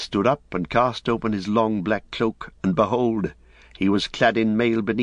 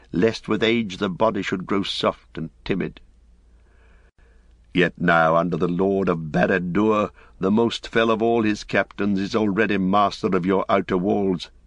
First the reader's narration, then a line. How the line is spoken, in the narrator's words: said Gandalf